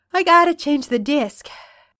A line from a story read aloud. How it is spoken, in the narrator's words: he says through a yawn